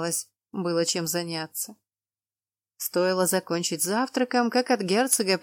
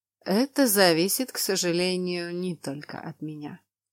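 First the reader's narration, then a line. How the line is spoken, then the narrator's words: Calm reply. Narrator (Russian): спокойно отозвался Роналд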